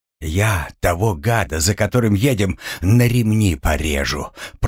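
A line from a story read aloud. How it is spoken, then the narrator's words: Hiss. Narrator (Russian): прошипел Савул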